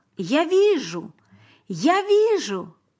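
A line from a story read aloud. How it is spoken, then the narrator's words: Shouting. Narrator (Russian): Теперь он кричал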